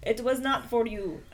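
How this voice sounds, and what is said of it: Put-on accent, admittedly inaccurate. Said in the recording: “My accent is not correct.”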